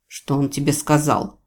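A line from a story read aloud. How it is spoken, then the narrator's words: Sharp question. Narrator (Russian): резко спросил Джейвидж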